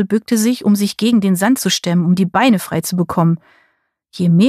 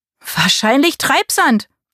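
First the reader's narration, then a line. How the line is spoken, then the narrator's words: Call. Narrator (German): rief Marie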